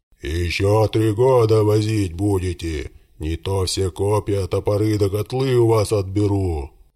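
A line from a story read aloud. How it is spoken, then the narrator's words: Furious bearlike roar. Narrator (Russian): Разъярился Тала, по медвежье взревел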